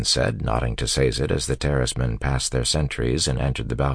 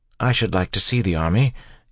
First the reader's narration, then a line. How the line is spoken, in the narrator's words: Yeadon said eagerly